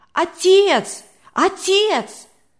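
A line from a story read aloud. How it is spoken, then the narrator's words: Breathless shouting boy. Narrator (Russian): задыхаясь, кричал мальчик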